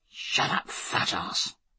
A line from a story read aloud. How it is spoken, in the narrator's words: whispered his friend